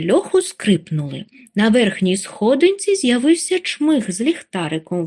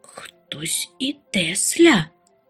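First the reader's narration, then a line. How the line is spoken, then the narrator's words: Terrified whisper. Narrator (Ukrainian): холонучи від ляку зашепотіла Чупсля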